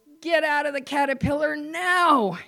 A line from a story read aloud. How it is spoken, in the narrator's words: one of the other workers or foreman saw, uh-oh, and yelled to